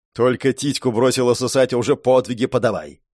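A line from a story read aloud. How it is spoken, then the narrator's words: Grumbling. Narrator (Russian): бурчала мечница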